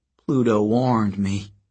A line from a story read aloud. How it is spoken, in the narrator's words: her mother said